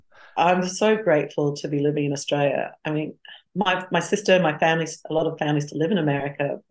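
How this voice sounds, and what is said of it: Australian accent. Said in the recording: “your proud Aussie accent”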